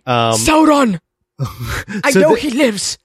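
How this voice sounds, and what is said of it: Impression of a fantasy elf character. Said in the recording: “my impression of Galadriel”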